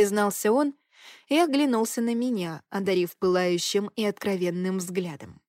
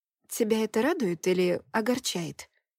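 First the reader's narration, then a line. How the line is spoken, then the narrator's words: Confused clarifying question. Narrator (Russian): уточнила я, сбитая с толку его глухим голосом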